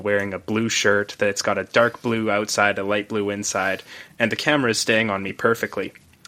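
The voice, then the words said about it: Flat monotone voice. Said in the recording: “I am a monotone individual”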